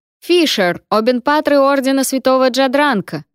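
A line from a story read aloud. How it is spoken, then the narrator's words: Shouted. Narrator (Russian): прокричал Клавер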